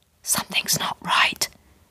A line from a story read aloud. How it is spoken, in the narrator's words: whispered my mother